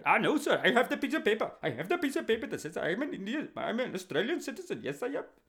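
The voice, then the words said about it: Imitated Indian English accent. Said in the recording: “You're from India, mate ... His accent, of course, wasn't like that.”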